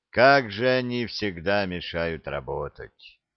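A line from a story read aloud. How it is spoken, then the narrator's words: Tired inner thought. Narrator (Russian): Устало подумал Симон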